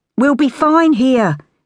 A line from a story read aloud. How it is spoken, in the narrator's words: Minnie says loudly, cutting her off